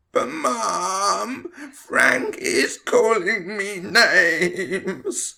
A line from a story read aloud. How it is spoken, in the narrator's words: Tom whined